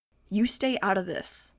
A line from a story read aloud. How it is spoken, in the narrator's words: I snapped